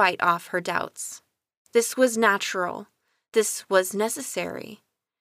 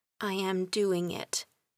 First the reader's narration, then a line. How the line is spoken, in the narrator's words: With each step, she murmured